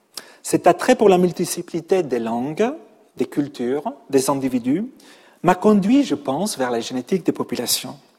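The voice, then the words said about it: Catalan-Spanish accent speaking French. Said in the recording (French): “Je suis depuis 20 ans un Parisien, malgré mon accent, mais aussi un Catalan, un Espagnol”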